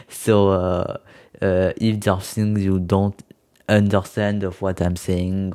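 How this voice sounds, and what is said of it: Heavy non-native English accent. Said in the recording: “my accent is too uh, too uh, heavy ... i'm not a native english speaker”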